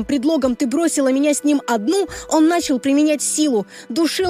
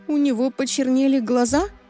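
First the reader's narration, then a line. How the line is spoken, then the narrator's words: Quiet question. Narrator (Russian): тихо спросила она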